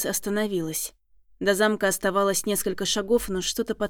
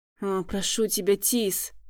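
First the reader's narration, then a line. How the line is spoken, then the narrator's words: Near moan. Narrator (Russian): Едва ли не простонал он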